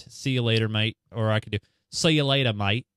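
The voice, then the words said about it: Put-on Australian accent. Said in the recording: “try to say this in an Aussie accent.”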